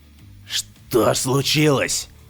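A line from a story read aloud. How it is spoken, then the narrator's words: Hoarse, breaking voice. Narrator (Russian): Голос его хрипел, срывался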